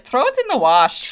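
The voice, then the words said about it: Bad put-on Irish accent. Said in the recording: “a bad Irish accent”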